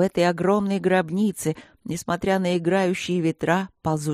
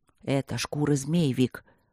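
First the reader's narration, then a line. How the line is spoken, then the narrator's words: Whispered reply. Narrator (Russian): прошептал в ответ Мартин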